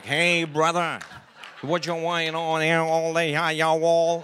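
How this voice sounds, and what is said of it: Put-on cowboy drawl. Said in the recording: “he sounded like a cowboy”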